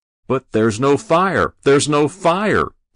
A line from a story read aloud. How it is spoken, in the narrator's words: Binder shouted